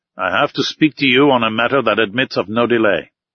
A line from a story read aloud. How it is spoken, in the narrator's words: said coldly